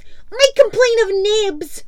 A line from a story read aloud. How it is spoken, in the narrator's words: he cried promptly